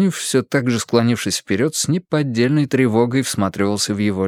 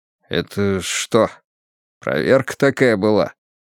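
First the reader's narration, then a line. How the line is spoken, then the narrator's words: Muffled question. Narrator (Russian): Сукаризный глухо спросил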